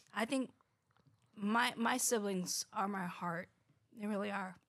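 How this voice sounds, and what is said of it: Emotional, choked-up voice. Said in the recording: “Oh my gosh, I'm getting emotional.”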